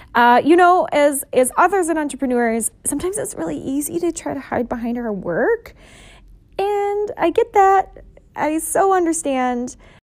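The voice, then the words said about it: Hoarse, strained voice. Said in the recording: “My voice is kind of weird... my voice is quite hoarse”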